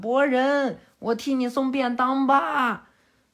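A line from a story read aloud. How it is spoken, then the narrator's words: Loud shout. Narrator (Chinese): 佐良娜在那边大喊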